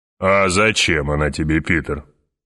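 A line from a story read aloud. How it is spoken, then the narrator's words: Deep bass voice. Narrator (Russian): пробасил барон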